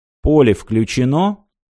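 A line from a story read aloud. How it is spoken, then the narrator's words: Even, level voice. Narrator (Russian): все тем же ровным голосом спросил Аранг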